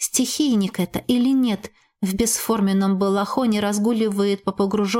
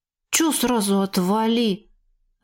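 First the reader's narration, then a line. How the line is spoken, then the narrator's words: Offended grumble. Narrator (Russian): обиженно буркнул квазар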